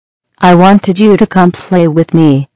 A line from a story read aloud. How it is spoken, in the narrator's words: she said